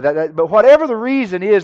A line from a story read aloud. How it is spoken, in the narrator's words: they cried out